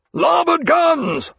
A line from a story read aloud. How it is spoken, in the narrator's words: roared Jack